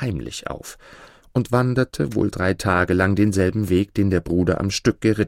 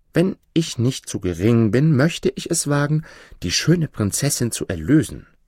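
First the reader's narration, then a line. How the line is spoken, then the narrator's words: Plain. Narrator (German): sagte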